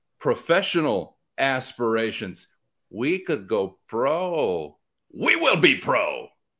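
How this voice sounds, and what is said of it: Impression of Steven Ignacio. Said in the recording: “my Steven Ignacio impression”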